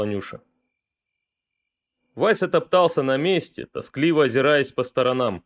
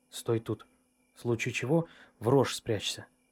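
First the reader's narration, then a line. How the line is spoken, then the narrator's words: Quiet. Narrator (Russian): тихо сказал Вася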